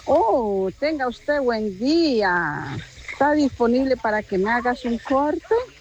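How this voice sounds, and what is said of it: Clownish Colombian accent. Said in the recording (Spanish): “Este es el acento como, ¿qué? Payasín, ¿no? Ese es otro acento colombiano”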